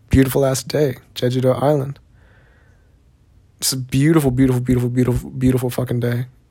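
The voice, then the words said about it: Noticeable Southern US accent. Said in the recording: “you have a pretty noticeable accent ... I, for one, did not think that I had a noticeable Southern accent”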